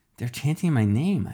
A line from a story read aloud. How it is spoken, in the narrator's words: I muttered